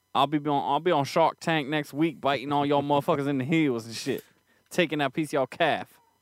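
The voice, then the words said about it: Put-on regional street accent. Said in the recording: “What accent is that you're doing? ... A good Boulevard accent”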